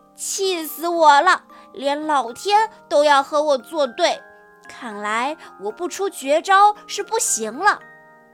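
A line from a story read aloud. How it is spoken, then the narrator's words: Furious shouting. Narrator (Chinese): 他气极了 大声叫道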